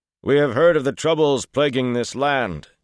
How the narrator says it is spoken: bellowed at the men atop the wall, managing formality at the top of his lungs

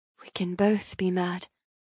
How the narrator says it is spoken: I whisper

